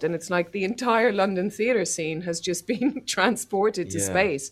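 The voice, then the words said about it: Irish accent, clear diction. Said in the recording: “that is an Irish accent. Apparently she went to, she's from Ennis. ... She's excellent Ennis. Diction.”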